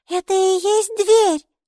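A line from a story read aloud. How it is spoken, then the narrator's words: Squeaked. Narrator (Russian): пискнула Майки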